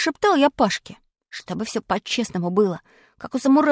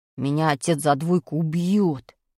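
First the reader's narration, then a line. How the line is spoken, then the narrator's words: Moaning. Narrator (Russian): простонал Пашка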